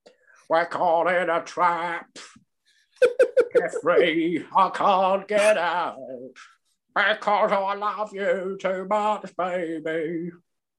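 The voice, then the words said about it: Imitates a male singer's voice. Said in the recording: “my impersonation or my attempt to impersonate Roland Gift, singer of the Fine Young Cannibals”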